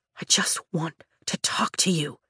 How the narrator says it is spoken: he whispers, his face inches from mine

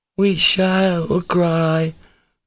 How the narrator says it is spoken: drawled Kostya, on the verge of tears already

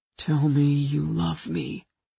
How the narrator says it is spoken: he breathed

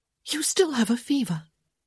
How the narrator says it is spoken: she said excitedly

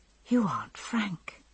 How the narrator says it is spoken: I whispered

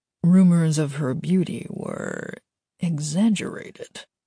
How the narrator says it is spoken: his father muttered

